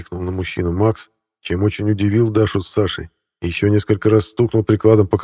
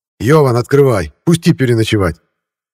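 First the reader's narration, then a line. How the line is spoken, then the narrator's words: Shouting through gate. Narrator (Russian): крикнул Усков через ворота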